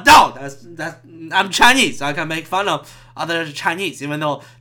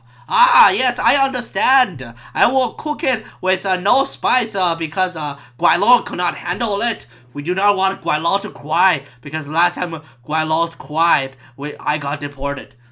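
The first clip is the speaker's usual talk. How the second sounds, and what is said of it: Put-on Cantonese accent. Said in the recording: “that's a Cantonese accent”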